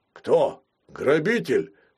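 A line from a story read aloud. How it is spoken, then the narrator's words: Deep bass, older man. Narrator (Russian): спрашивал басом сосед с нижнего этажа, полковник в отставке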